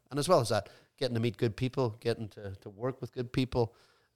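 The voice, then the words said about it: Irish accent. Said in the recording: “it's that Irish accents has got me into a lot of bother ... girls love Irish accents here in America”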